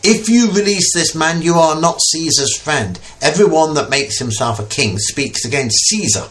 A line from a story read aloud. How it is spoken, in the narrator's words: the Jews cried out, saying